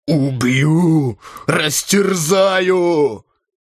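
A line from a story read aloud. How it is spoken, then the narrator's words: Hoarse furious rasp. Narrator (Russian): Энгельбрект хрипел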